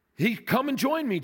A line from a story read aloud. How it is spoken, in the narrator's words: Jesus replied